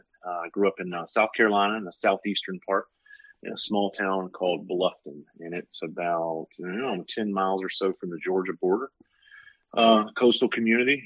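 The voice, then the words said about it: Southern US accent. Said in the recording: “I'm from the South, obviously. If you can't hear tell from my accent”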